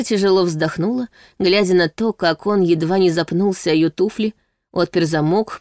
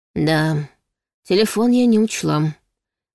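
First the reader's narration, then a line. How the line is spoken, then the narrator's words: Sighing. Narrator (Russian): вздохнула Саша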